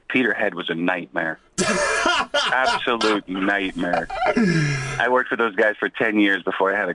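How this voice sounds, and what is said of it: American accent. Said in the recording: “What a beautiful accent you've got ... you haven't shaken off the accent”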